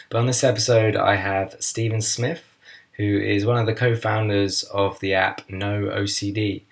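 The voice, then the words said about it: Hoarse, strained voice from sore throat. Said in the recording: “I've got a sore throat and I'm losing my voice a bit”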